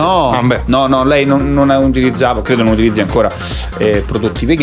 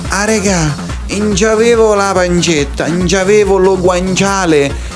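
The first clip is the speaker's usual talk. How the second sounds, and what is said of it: Imitated local Italian dialect. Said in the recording (Italian): “Dice in, dialetto locale”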